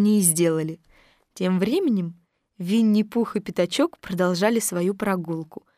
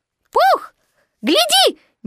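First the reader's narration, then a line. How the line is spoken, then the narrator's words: Sudden squeak. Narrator (Russian): неожиданно пискнул Пятачок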